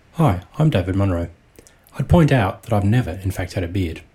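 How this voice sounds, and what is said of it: Australian accent. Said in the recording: “An international contribution, as it's come all the way from Australia. ... Which you'll tell by his accent.”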